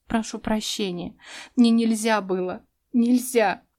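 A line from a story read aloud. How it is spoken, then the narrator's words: Sobbing again. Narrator (Russian): всхлипнула по новой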